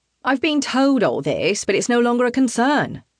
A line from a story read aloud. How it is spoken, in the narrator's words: the man snaps